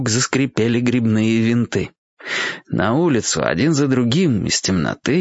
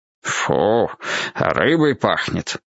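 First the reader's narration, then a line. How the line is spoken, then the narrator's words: Grumbling. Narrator (Russian): проворчал он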